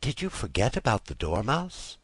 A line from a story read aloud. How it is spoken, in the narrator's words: she said timidly